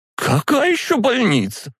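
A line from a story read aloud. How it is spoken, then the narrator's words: Shrieked. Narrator (Russian): взвизгнула ее рыжая дочь за спиной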